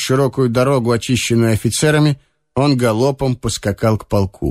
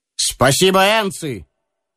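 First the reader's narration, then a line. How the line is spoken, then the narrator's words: Firm, friendly shout. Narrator (Russian): твердо и приветливо крикнул генерал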